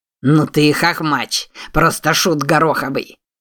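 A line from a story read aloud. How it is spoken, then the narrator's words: Rough-voiced guffawing laugh. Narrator (Russian): Парень с грубым голосом захохотал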